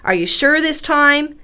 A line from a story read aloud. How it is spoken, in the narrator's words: Andrea asks